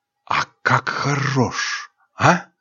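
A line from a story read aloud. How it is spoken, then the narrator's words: Whispering in ear. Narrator (Russian): зашептала ей на ухо Миэн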